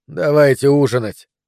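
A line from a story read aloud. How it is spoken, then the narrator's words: Tired. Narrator (Russian): сказал он устало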